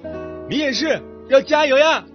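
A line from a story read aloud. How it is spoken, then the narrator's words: Shouting. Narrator (Chinese): 向他大喊着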